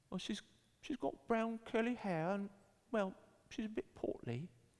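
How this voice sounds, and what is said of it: Put-on British child's accent. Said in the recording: “he was from the UK because he had this awesome accent”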